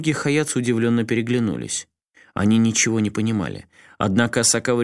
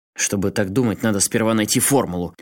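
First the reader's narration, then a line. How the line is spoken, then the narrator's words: Snapped. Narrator (Russian): огрызнулся Асакава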